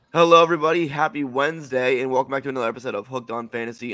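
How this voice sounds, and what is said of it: Strained, worn-out voice. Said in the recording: “my voice is a little shot, as you can tell ... I have a cough drop in ... hopefully this isn't unlistenable”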